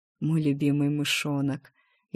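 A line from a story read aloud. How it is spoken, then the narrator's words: Slightly hoarse, very pleased. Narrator (Russian): Его голос был слегка хриплый, но очень довольный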